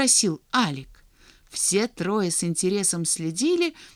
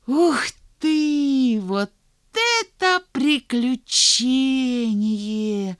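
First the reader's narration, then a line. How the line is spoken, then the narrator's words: Breathless exclamation. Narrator (Russian): выдохнул Санька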